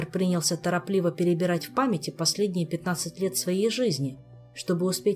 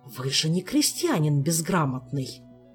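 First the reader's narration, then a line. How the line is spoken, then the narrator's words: Angry scolding whisper. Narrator (Russian): Гневным шепотом отчитывал кого-то придворный маг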